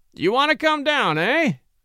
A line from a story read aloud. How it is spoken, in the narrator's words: cackled Austin